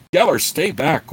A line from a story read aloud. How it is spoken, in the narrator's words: Gord shouted urgently to the bard